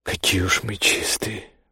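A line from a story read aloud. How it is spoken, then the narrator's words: Mutter. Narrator (Russian): пробормотала Бирдит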